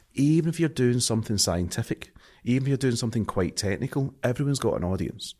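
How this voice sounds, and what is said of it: Strong Scottish accent. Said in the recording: “I'm too Scottish to, my accent's too strong”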